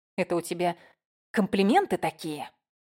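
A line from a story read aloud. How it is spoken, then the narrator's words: Hiss. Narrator (Russian): прошипела я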